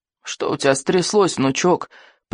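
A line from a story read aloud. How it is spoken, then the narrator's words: Creaky old man's voice. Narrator (Russian): проскрипел старый сморчок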